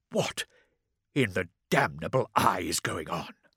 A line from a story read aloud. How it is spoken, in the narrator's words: Lansung rumbled